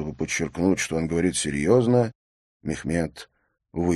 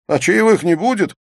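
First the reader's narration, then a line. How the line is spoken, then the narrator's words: Laughing shout. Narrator (Russian): со смехом прокричал Мехмед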